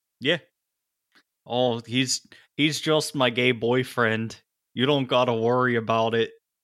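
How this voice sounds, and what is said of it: Put-on Yooper Michigan accent. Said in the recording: “do a fantastic Youper accent ... unintentional comedy in this show because of that accent”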